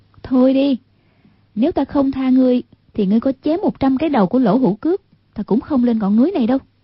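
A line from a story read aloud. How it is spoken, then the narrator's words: Graceful, smiling. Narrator (Vietnamese): Hoàng Dung duyên dáng mỉm cười, nói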